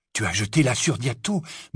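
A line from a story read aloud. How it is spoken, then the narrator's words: Murmur. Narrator (French): murmura-t-il à Hermione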